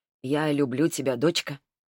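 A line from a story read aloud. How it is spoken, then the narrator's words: Father says quietly. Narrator (Russian): папа тихо сказал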